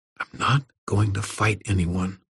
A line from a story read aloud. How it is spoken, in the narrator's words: Irwin all but whispered